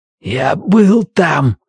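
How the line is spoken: Hoarse whisper. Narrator (Russian): хрипло прошептал Бристоу

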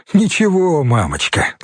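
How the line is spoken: Laughing. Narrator (Russian): засмеялся Юра

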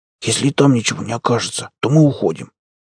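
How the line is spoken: Irritated whisper. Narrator (Russian): Макс раздраженно прошептал

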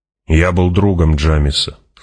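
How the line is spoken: Plain. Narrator (Russian): сказал

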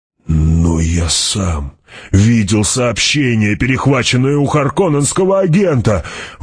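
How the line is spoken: Exclaimed. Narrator (Russian): воскликнул Гурни

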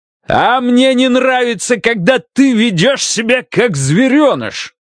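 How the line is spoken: Shouted. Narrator (Russian): Заорал

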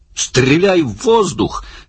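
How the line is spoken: Shouted. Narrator (Russian): крикнул Барни

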